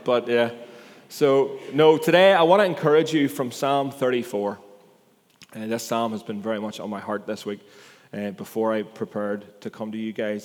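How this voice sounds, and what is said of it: Rural regional accent. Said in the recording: “apparently I have a culty accent ... I'm quite comfortable with my culty accent”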